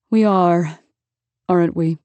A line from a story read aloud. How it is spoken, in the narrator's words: He said, around a dreamy sigh